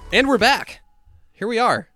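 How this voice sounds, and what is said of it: Announcer voice. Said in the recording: “My announcer voice is still kind of there.”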